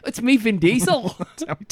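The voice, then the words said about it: Put-on New Zealand accent. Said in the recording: “That's a South African accent. ... Is it? I was doing New Zealand for some reason.”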